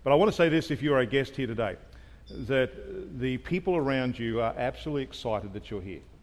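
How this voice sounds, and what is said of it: Unusual non-local accent. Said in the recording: “I do have an unusual accent, and that is not the normal accent you just heard the pastor.”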